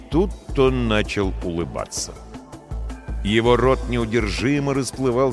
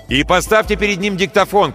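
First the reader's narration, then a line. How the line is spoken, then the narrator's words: Shouted over shoulder. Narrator (Russian): крикнул за спину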